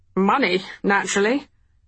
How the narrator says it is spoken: Dee said with a small snort

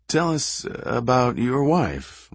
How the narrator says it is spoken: Royce McKnight said almost meekly

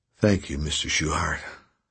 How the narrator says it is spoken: said Arthur in a weak voice

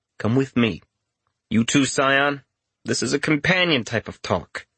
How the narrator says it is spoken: as calmly as he could, said

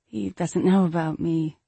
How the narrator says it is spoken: she said sadly

